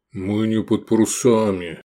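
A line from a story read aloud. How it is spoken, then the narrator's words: Grumbling. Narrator (Russian): пробурчал Гефестай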